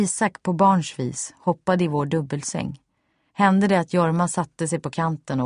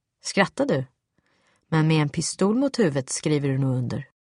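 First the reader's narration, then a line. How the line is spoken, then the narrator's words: Cold. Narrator (Swedish): kunde han helt kallt säga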